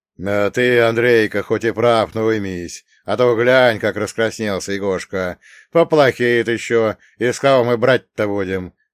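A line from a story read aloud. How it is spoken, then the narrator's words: Booming drone. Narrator (Russian): прогудел Нелюб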